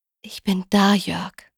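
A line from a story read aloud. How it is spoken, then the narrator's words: Gentle. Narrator (German): sie sprach sanft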